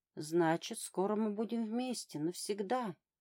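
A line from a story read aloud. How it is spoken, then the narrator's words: Tender singsong. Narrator (Russian): нежно пропела Вобла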